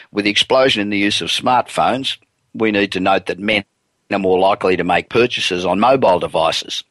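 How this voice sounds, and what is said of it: Congested voice from a cold. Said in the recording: “I've got a bit of a cold, so that's why my voice is a bit funny today.”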